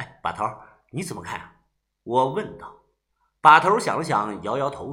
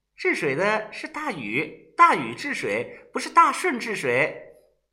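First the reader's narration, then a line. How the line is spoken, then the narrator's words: Laughing. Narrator (Chinese): 小轩笑着说道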